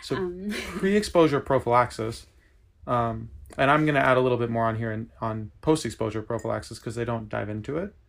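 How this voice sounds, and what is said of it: Speaks with a noticeable accent. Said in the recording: “It's just very cute in your accent.”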